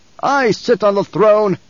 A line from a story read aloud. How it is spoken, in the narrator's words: he barked